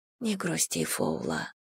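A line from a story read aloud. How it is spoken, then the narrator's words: Whispered. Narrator (Russian): прошептала она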